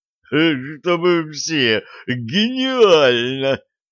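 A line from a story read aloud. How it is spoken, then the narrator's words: Guffawing. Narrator (Russian): хохотал Ингвальд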